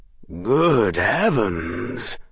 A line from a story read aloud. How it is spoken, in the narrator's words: gasped the man